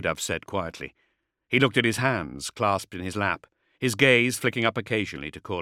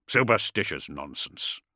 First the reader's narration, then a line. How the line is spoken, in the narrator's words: grumbled Courland